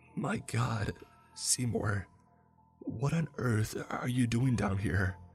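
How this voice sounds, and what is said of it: Whispered frightened line. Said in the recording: “my voice in a whisper.”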